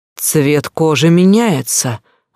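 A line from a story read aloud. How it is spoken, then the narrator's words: Doctor's exclamation. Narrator (Russian): воскликнул врач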